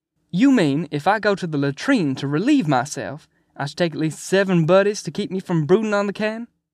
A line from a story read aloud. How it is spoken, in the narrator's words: Cheswick hollered at her